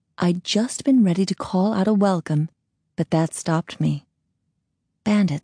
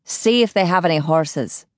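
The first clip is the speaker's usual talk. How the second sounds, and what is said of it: Unfamiliar odd accent, male voice. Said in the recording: “I didn't know his voice, and his accent was odd.”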